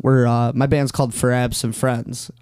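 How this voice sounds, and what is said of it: Slight put-on accent. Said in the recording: “I have to say it, like, with a little bit of that accent.”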